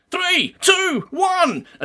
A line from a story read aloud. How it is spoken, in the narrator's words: Gret shouted